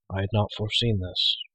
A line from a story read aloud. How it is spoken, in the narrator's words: Gwydion murmured